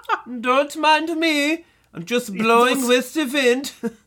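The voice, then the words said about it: Put-on German accent. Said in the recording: “that tree has a distinct German accent.”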